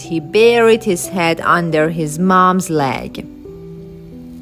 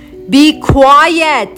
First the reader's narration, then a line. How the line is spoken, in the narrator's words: Isaac yelled at it all